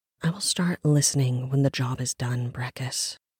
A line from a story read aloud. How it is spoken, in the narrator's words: Rin whispered to herself